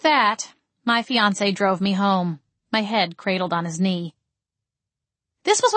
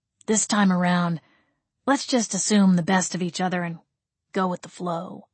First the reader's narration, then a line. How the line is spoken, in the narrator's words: he murmured